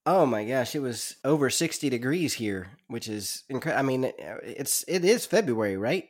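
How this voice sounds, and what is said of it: Voice sounds like he has a cold. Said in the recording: “I've got a little bit of a cold”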